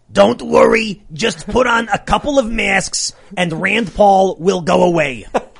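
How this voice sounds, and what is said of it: Imitates another person's voice. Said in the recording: “As a connoisseur of accents, that was pretty damn good.”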